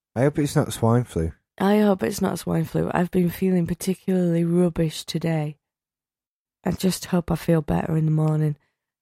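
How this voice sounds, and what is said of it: Voice affected by a cold. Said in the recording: “the cold, because it's still here, as you can hear in my voice”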